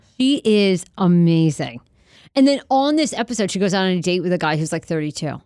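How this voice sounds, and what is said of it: Usual voice. Nothing is said of it.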